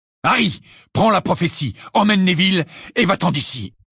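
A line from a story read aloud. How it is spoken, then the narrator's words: Shouting. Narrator (French): cria Sirius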